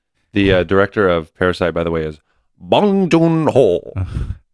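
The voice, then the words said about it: Put-on accent pronouncing a name. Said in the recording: “Why did you use that accent? You're white.”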